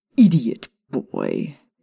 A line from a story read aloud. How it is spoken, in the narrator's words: Snape snarled